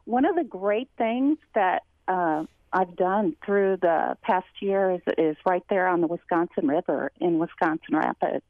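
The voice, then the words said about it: Slight Kentucky-sounding Southern accent. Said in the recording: “you sure sound like you live in Kentucky now. It's very nice. ... A little bit of an accent, probably.”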